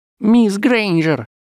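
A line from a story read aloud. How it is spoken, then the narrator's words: Squeaky. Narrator (Russian): пропищал профессор Флитвик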